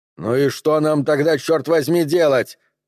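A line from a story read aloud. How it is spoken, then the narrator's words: Shouted reply. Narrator (Russian): крикнул снайпер в ответ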